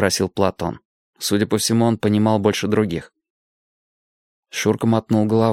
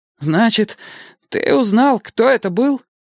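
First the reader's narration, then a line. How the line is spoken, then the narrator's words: Frightened question. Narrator (Russian): испуганно спросил Кустик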